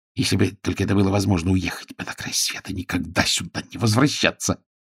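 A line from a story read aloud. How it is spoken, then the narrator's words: Muttering. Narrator (Russian): бормотал он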